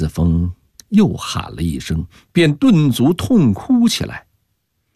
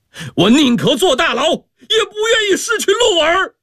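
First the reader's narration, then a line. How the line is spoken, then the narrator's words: Furious roar. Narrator (Chinese): 陈子峰怒吼，震得窗纸瑟瑟山响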